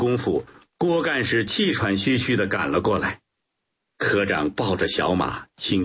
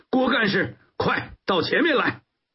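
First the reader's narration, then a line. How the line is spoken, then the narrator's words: Loud relayed call. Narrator (Chinese): 科长马上回应，大声传话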